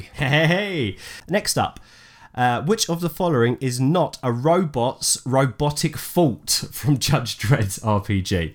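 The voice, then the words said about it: Accent making fault sound like thought. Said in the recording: “Fault. ... As in F-A-U-L-T is my accent, sorry.”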